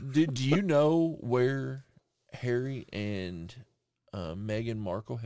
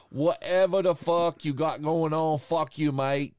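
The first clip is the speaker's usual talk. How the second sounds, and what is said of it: Put-on English accent. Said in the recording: “That's my fucking English accent.”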